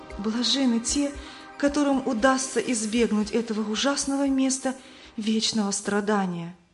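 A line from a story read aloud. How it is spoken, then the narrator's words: Frightened trembling voice. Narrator (Russian): Она побледнела и дрожащим голосом сказала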